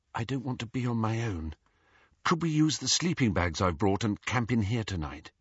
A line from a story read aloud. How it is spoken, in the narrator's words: Faintly, he heard Hermione say